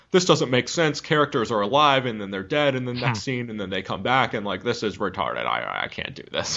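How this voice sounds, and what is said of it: Impression of a studio executive. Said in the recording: “that's a good impression. ... an impression of a random studio executive. ... he'd also just had jaw surgery, that executive ... possibly a stroke.”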